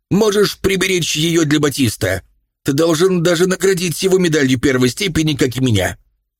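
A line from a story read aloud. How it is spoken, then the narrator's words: Angry shout. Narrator (Russian): бросил медаль ему в лицо и крикнул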